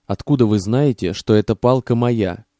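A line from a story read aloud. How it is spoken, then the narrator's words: Plain. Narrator (Russian): спросил О'Бриен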